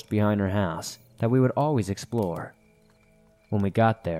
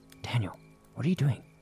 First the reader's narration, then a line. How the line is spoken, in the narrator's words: I whispered